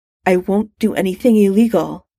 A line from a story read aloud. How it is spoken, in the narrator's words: said in a tight voice